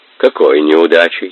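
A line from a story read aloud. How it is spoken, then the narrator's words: Cold question. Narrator (Russian): холодно спросил Бату-хан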